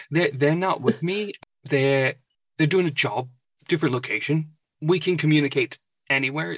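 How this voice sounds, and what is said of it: Put-on different accent. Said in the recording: “I'm talking in a different accent.”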